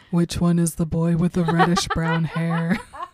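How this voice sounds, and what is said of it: Exaggerated deep low-pitched voice. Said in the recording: “I already talk in a low voice, so that was just one step too far ... I am incapable of making a low voice, so I'm glad you did it”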